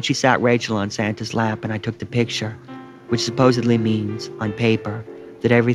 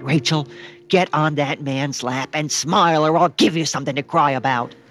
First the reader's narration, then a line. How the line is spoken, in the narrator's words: She yelled